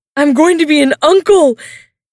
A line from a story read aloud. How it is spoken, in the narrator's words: He screams